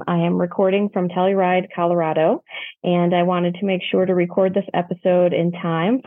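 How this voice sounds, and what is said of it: Slightly muffled sound. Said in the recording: “I sound a little muffled”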